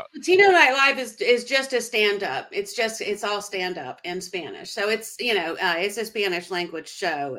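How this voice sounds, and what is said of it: American Southern accent. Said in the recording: “that's a Southern accent ... Yeah, I know the Southern accent throws everybody off.”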